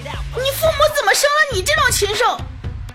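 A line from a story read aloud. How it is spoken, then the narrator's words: Shouting. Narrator (Chinese): 他就在那大喊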